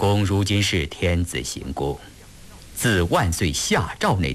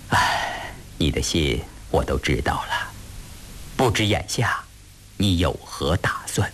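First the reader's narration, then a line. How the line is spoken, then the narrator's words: Sighing. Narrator (Chinese): 叹息一声说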